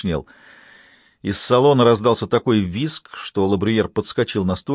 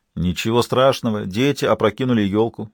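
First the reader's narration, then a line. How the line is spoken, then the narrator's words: Plain. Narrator (Russian): сказал Енисеев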